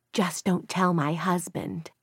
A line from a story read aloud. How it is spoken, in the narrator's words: an older woman with perfectly coiffed pink hair, touched her on the elbow and whispered